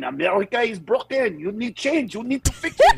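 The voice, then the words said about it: Put-on French accent. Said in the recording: “give it a French accent ... If it was some French guy going”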